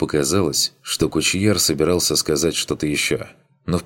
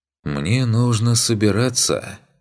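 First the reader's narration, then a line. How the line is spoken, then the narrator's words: Sad sigh. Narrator (Russian): вздохнул Беркут, грустно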